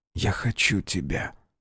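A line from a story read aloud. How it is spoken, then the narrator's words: Barely audible. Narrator (Russian): Он едва слышно произносит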